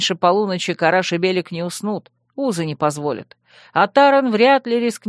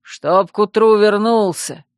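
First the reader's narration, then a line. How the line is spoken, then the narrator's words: Booming bark. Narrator (Russian): зычно гаркнул Шранк вслед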